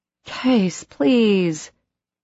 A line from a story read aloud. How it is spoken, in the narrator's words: Emma moaned